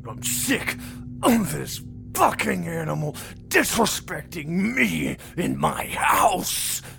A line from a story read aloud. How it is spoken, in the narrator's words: Carl snarled drunkenly